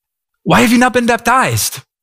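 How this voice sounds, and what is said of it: Imitates a movie character's voice. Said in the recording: “my best impression”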